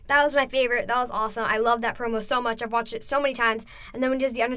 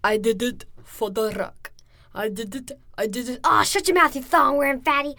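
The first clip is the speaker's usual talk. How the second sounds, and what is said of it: Imitates another person's voice. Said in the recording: “The Rock impersonating The Undertaker, Rikishi ... my favorite was Rikishi when he goes”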